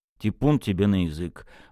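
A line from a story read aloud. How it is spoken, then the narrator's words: Grumbling. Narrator (Russian): проворчал Михаил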